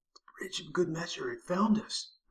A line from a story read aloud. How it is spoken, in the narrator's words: Burks whispered